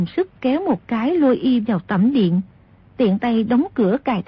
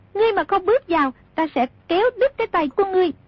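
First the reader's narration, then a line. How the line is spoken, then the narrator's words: Shouted. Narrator (Vietnamese): quát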